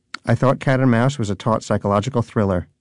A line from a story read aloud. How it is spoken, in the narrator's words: said Donut